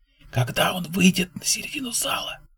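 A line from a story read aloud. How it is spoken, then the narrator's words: Whisper. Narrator (Russian): прошептала Джейнис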